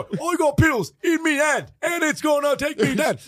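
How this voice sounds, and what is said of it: Rapping in an old British accent. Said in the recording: “those two old dudes from Britain who rap ... Pete and Buss”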